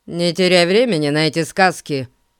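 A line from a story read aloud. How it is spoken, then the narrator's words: Gloomy curt, driver. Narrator (Russian): мрачно бросил водитель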